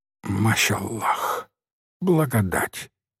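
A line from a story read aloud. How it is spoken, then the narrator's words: Old man whispering. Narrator (Russian): шептал старый Хабук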